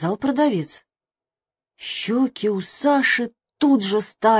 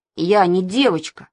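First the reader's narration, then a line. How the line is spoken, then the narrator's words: Angry. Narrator (Russian): сказал он сердито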